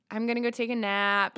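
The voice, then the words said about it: Sassy valley girl dog voice. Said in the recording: “if I were a dog, I'd be like a sassy little dog ... Like a sassy valley girl.”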